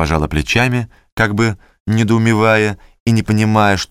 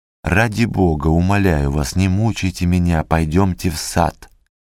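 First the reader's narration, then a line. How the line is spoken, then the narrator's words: Agitated whisper. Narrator (Russian): сказал Екатерине Ивановне шепотом, сильно волнуясь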